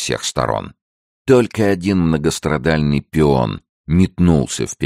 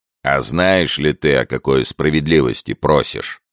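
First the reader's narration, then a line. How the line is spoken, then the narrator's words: Leader's guttural question. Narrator (Russian): гортанным голосом спросил его предводитель отряда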